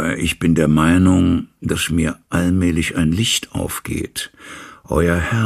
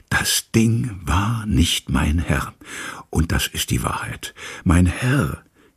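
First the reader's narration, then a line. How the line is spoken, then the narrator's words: Dropping to whisper. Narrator (German): verfiel ins Flüstern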